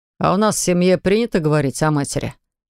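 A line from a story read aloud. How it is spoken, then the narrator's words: Snorting. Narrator (Russian): хмыкнул Виталик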